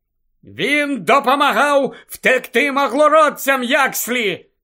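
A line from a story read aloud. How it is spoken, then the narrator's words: Shouted. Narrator (Ukrainian): закричав Гаррі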